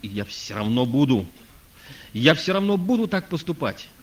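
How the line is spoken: Shouting from floor. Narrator (Russian): А мой брат кричал на полу

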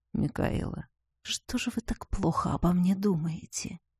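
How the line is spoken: Tender whisper. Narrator (Russian): чтобы слышала только я, Ивар ласково шепнул

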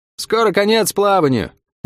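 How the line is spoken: Cheerful shout. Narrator (Russian): весело прокричала паромщица

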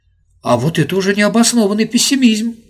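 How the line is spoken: Exclaimed. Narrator (Russian): воскликнул Вадим Афанасьевич и очень смутился

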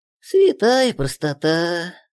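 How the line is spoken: Sighing little man. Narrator (Russian): вздохнул человечек

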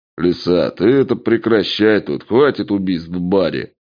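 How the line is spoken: Deep bass voice. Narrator (Russian): пробасил человек с внешностью мертвяка

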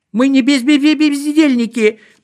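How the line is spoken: Faltering, nearly crying. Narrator (Russian): пролепетала чуть не плача Селедочка

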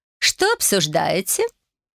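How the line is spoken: Admiring voice. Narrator (Russian): Эвелин восхищенным голосом поведала

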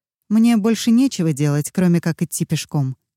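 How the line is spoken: Plain. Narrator (Russian): сказала она

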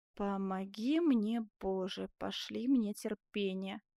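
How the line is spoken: Muffled mutter. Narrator (Russian): глухо пробормотал Бенвенуто

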